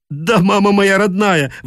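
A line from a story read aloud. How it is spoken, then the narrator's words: Desperate hoarse shout. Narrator (Russian): в отчаянии осипшим голосом закричал Дед Мороз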